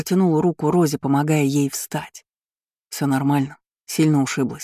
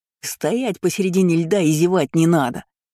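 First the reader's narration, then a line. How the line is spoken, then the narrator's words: Barked. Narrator (Russian): гаркнул незнакомец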